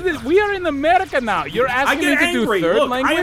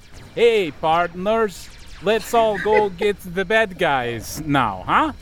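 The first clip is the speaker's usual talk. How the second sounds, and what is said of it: Bad impression of a Canadian voice. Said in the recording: “sounding Canadian, just like you ... that was just a really bad impression of me”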